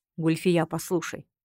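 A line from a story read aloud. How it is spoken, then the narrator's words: Calm husband. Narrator (Russian): спокойно произнес муж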